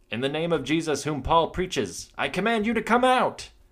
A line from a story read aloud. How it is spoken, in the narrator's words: They cried out